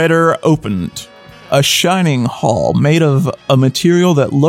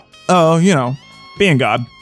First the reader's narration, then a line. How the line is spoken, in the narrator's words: Shaggy said